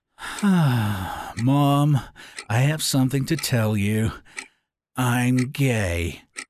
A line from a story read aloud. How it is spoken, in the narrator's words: he let out an exaggerated sigh and said